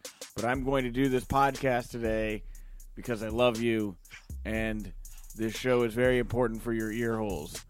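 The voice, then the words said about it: Hoarse, worn-out voice. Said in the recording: “my voice is shot from a very busy weekend of All Out and StarCast”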